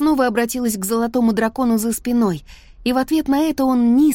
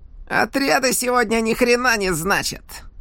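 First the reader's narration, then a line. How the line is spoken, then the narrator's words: Menacing growl. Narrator (Russian): прорычал он, угрожающе улыбнувшись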